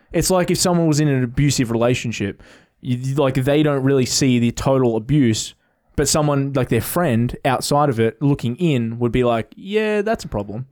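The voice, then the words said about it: Australian accent. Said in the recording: “I don't notice my accent, but someone from America notices my accent ... we don't have accents, like our accents aren't that strong. And he was like, Yeah, they are. ... I've grown up in Melbourne”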